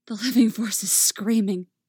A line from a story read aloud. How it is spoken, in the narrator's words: she gasps